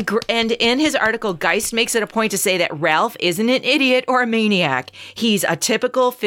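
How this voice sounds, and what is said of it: Usual voice. Nothing is said of it.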